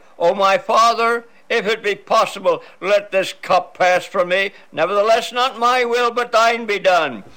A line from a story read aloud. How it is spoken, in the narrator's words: Jesus cried